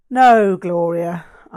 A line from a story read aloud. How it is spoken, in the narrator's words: I sighed